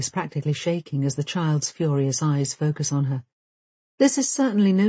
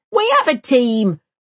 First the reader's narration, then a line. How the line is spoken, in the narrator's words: roars Vega